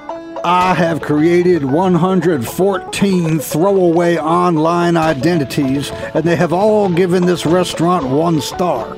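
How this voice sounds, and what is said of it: Put-on Southern US accent. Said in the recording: “why do we both have southern accents?”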